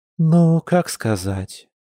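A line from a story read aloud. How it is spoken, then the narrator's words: Sighing. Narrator (Russian): вздохнула подруга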